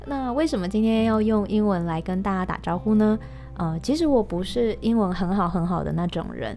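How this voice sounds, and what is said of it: Mandarin with Taiwanese accent. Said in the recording (Chinese): “不要因为我的台湾口音然后就跑掉了”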